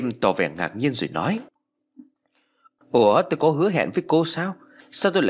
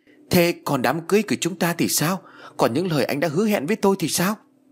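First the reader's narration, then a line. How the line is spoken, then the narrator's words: Woman shouting, unable to restrain. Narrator (Vietnamese): Uyển không dằn nổi, cô liền hét lên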